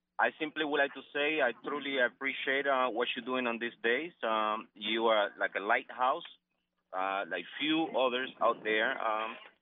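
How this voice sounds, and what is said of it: Non-native English accent. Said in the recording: “I hope you understand my English. I apologize for my accent.”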